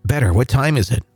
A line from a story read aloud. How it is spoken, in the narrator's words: asked